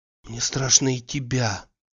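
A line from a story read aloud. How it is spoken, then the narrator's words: Whisper. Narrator (Russian): говорила она шепотом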